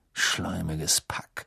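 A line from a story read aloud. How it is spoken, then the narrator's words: Muttered. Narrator (German): murmelte Ron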